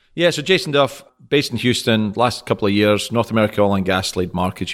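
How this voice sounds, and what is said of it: Scottish accent. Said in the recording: “You have to point out you're Scottish, right? Because they can't hear it in your...”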